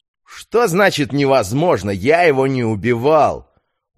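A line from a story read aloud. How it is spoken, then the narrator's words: Indignant shout. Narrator (Russian): возмущенно выкрикнул Петр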